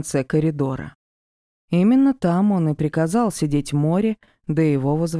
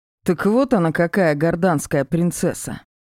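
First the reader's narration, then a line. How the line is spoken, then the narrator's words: Snorting. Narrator (Russian): хмыкнул он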